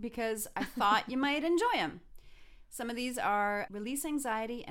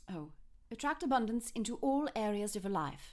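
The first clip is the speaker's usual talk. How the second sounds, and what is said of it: Put-on British accent. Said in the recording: “Okay, now British. ... please do them with that accent. That is so much better.”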